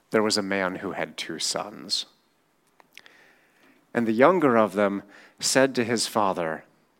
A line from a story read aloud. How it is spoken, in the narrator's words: you can almost hear his voice crackling